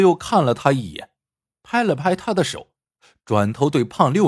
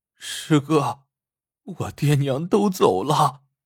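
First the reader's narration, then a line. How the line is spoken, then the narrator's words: Choked, tearful. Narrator (Chinese): 两眼含泪，哽咽着说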